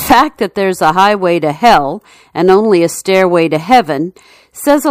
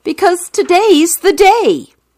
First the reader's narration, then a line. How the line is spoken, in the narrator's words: The man yells